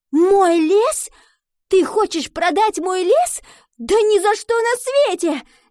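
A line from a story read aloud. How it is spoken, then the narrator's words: Shouting, female. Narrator (Russian): закричала она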